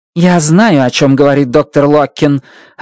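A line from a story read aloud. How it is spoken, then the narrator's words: Sharp snap. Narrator (Russian): огрызнулась Страт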